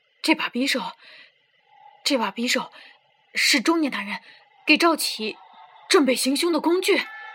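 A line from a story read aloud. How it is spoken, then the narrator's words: Murmuring in disbelief. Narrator (Chinese): 却一脸难以置信的平神情，喃喃道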